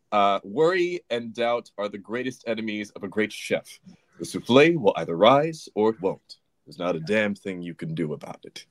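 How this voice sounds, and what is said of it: Imitates another person's voice. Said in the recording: “what a great impression as well of Joseph”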